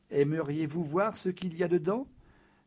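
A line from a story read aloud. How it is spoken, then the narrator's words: Plain. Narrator (French): me demanda-t-il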